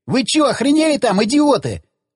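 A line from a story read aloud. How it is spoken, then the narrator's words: Frightened yell. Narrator (Russian): заорал перепугавшийся Федька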